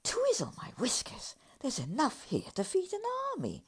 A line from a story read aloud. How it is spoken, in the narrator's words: exclaimed the badger, wide-eyed